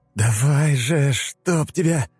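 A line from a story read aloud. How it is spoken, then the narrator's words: Hoarse, unfamiliar voice. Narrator (Russian): прохрипел Слай, не узнавая собственного голоса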